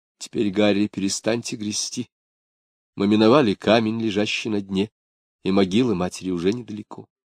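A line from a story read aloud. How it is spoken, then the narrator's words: Whispered. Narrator (Russian): прошептала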